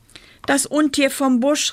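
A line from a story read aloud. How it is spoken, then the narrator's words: Calling out. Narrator (German): rief er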